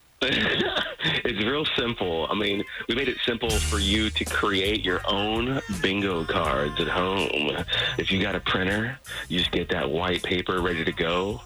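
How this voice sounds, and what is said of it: Low sultry morning voice. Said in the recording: “Hey, it's an early morning voice. ... But do it in that sexy morning voice.”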